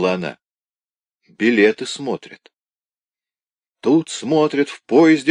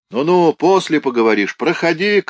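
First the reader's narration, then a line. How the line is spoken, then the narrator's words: Inspector shouting. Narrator (Russian): крикнул контролер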